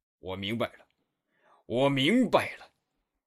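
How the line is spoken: Roaring. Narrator (Chinese): 他吼道

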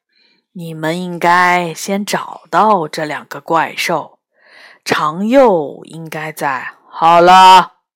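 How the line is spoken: Sighing. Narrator (Chinese): 斗牛叹了口气说

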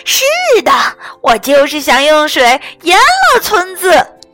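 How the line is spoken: Shrill scream. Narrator (Chinese): 蓝妹妹尖声大叫道

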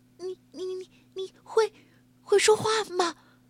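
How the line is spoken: Stammering question. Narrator (Chinese): 结结巴巴的问

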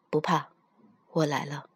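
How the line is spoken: Deep comforting voice. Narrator (Chinese): 帝君声音沉沉地安慰着他

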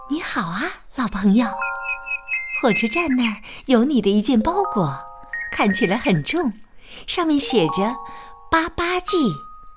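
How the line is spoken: Soft voice. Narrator (Chinese): 夜莺轻声的说道

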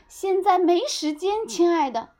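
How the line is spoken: Shouting. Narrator (Chinese): 熊妈妈大喊

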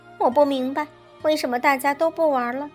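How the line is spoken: Plain. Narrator (Chinese): 他问苏菲亚

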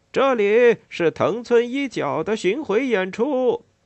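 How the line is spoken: Loud shouting. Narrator (Chinese): 有人正在大声喊叫

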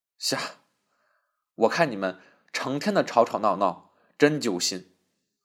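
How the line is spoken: Sighing. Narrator (Chinese): 他又叹了口气道

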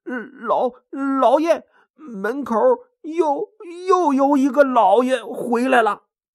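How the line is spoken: Flustered, stammering servant. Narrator (Chinese): 仆人慌慌张张的，结结巴巴的说

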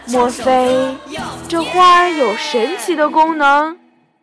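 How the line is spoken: Murmuring. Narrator (Chinese): 熊妈妈喃喃地说

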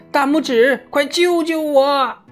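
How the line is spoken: Desperate cry. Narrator (Chinese): 雄鹅像往常陷入困境那样呼喊着

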